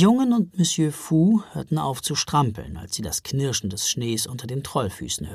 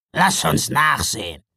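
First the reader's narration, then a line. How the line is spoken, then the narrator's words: Troll grunting. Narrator (German): grunzte der andere Troll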